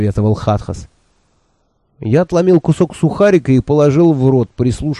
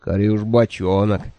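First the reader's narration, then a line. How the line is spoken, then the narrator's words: Groaned. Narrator (Russian): простонал Хатхас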